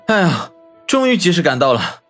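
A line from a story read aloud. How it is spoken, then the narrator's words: Breathless, panting. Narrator (Chinese): 方寸气喘吁吁地说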